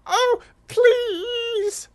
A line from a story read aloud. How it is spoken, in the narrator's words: squeaked Mouse